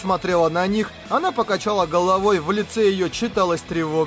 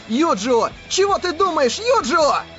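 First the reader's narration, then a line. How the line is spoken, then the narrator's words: Almost wailing. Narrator (Russian): Кирита уже почти вопил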